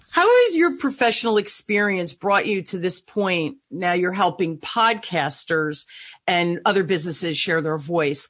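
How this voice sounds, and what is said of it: New Jersey accent. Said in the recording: “I have the Jersey accent going”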